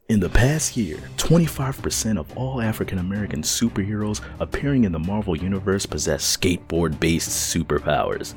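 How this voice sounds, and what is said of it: Announcer voice. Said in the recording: “I'm going to try to use a little bit of announcer voice, mix it up a little bit”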